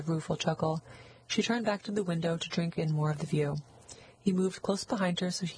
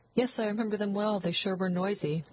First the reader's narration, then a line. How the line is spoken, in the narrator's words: Catherine laughed a little nervously